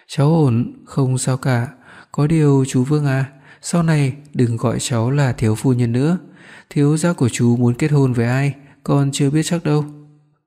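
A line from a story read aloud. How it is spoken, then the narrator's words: Smiling. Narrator (Vietnamese): Tô Yên Nhiên mỉm cười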